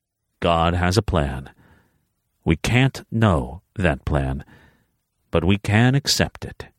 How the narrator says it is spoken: he said, his tone weirdly serene

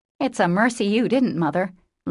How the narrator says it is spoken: laughed Joe

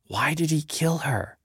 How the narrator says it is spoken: whispering to me

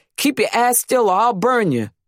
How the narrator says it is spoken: She would yell at us

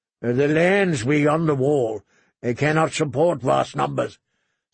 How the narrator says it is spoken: said Lord Tywin firmly

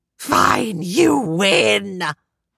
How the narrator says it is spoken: Tempest howled

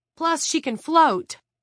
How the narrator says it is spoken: Jared blurted

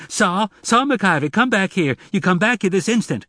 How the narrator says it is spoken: She shouted frantically

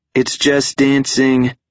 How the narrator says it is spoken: Skippy shouted

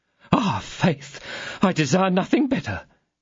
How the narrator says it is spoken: cried Monsieur Bonacieux

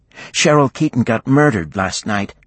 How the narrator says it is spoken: her friend said

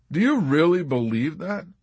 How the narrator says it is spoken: Clevenger laughed

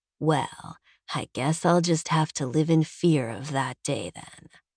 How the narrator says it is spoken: he purrs

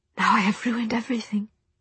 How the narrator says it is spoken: she whispered

